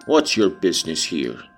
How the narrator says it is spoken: he demanded grimly

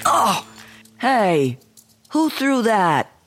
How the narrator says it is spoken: shouted one of the boys

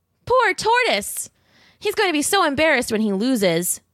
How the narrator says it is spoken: cried a cool black cat

